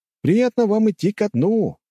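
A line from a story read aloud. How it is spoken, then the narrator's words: Shouted. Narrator (Russian): крикнул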